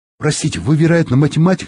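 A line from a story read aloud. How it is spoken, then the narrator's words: Plain. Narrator (Russian): спросил я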